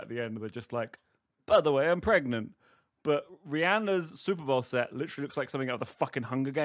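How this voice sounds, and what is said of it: Usual voice. Nothing is said of it.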